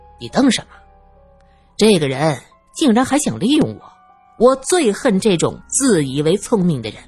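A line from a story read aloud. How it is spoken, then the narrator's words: Sneering. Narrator (Chinese): 罗隐冷笑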